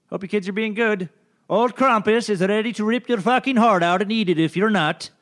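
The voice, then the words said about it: Attempted Scandinavian accent. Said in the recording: “I was trying to do some kind of Scandinavian accent.”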